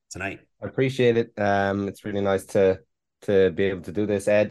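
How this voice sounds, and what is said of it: Irish brogue accent. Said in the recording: “I believe you're Irish by descent ... I detect that accent accurately ... I can spot a brogue”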